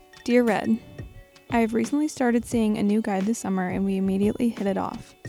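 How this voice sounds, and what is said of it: Slightly raspy voice. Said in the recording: “my voice is a little raspy ... It's from the bachelorette party”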